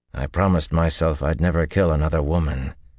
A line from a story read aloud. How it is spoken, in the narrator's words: he said wearily